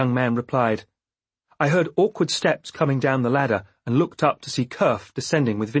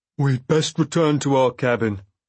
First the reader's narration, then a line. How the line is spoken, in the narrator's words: he said stiffly